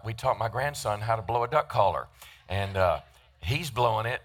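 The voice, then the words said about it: Voice strained by a cold. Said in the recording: “apologize for my voice a little bit. I've got a little a crud in my system”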